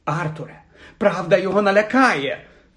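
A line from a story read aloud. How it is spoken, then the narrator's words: Shout. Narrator (Ukrainian): закричала місіс Візлі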